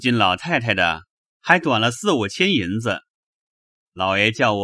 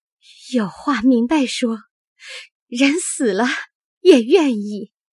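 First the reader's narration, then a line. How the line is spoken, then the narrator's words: Crying in anger. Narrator (Chinese): 平儿气得哭道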